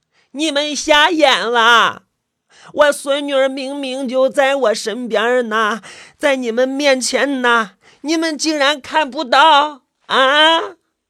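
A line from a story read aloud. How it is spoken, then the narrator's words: Angry yelling. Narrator (Chinese): 她突然生起气来，冲我们嚷嚷道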